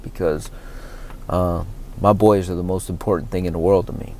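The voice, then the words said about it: Choked-up, emotional voice. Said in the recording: “hear it in my voice right now, getting a little choked up,”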